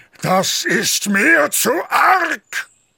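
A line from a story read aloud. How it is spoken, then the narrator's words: Screamed. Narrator (German): schrie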